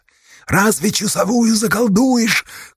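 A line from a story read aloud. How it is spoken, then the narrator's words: Shout. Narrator (Russian): крикнул в Ревде Асташа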